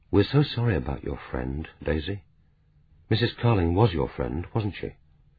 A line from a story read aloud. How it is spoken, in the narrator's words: said gently